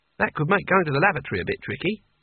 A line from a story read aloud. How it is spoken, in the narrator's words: said Kanina brightly